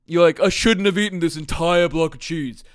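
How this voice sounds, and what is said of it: Put-on voice imitating himself. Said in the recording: “That's my impression of me.”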